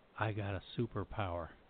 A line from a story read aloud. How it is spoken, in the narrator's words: He took a deep breath, lowered his voice, and said